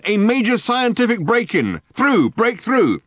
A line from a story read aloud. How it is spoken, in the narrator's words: barked the megaphone